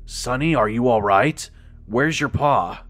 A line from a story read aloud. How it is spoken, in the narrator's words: he asked in his tired voice